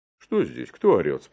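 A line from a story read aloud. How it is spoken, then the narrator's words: Stern question. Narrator (Russian): спрашивает он строго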